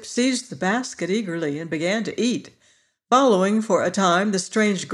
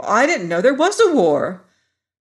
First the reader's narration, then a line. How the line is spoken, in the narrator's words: again exclaimed